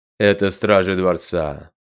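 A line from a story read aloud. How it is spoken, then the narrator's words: Even, unwinded voice. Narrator (Russian): ровным голосом объяснил совершенно не утомившийся за время подъема провожатый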